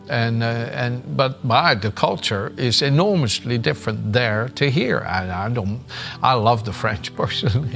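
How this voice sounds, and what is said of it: French accent in English. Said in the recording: “they notice my accent, that I come from the other side of the channel”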